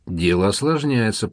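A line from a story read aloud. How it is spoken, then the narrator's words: Grumbled. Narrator (Russian): проворчала Амалия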